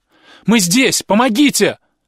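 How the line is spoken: Sudden shout. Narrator (Russian): Вдруг закричал Илья

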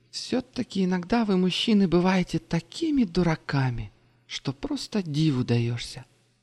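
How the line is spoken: Sighing. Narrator (Russian): вздохнула она

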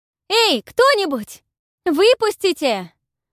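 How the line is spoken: Yelling into darkness. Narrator (Russian): заорала Павла в темноту

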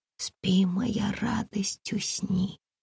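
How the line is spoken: Whispered singing. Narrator (Russian): затянула шепотом Комарова

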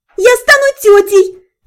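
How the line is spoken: Sudden squeal. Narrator (Russian): внезапно взвизгнула Дайра

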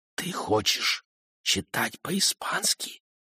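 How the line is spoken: Barely audible whisper. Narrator (Russian): повторил он таким же едва слышным шепотом

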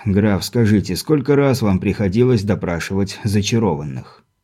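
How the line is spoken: Baron's weary question. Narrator (Russian): Устало поинтересовался барон

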